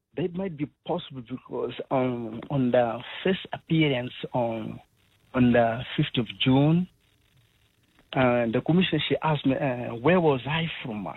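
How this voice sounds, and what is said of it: Clearly non-South African accent. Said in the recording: “your accent is very clearly non-South African”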